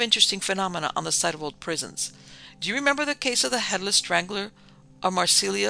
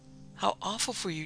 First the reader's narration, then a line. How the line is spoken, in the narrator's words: Jennifer Halliday gasped